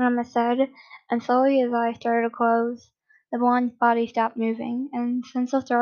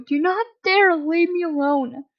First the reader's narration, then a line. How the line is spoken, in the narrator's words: The sobbing boy